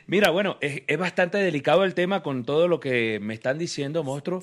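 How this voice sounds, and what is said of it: Colombian coastal accent. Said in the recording (Spanish): “me van a prohibir el acento costeño”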